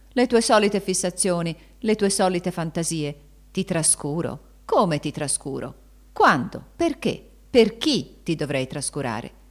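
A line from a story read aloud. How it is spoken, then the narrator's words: Exclaimed. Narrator (Italian): Raimondo aveva esclamato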